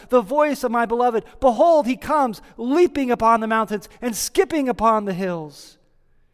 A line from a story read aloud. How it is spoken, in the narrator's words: we hear her exclaiming